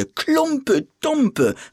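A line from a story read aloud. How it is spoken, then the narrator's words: Shouting crowd. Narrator (German): schrien andere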